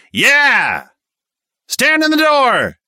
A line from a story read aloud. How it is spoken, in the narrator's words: A few voices cracked with fear, but most of the stick yelled